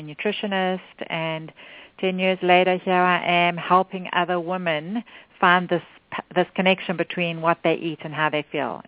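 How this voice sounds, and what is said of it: South African accent. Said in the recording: “accent is from, she's from South Africa”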